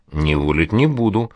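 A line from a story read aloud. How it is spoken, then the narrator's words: Snort. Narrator (Russian): хмыкнул он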